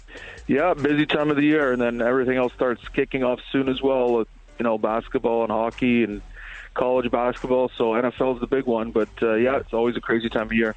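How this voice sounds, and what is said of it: Slight Canadian accent. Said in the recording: “you sound like you got a little bit of a Canadian twinge to you there”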